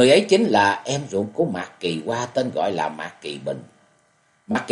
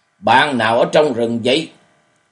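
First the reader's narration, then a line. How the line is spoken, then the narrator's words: Cold question. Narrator (Vietnamese): cất tiếng lạnh lùng hỏi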